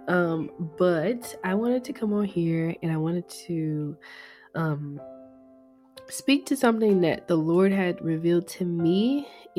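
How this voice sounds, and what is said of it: Sick-sounding voice. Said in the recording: “If you hear my voice that I sound sick, it is because I'm definitely getting over a sickness.”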